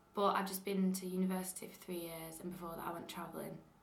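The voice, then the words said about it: Mild Lancashire accent. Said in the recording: “I've got a Lancashire accent, kind of ... it is a little bit affected by meeting people along the way”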